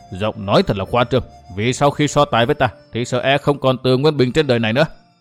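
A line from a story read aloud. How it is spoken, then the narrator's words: Cold scoffing laugh. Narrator (Vietnamese): Bắc Hải lại cười nhạt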